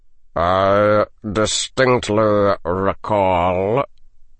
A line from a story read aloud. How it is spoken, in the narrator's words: said the head of his house in a sardonic drawl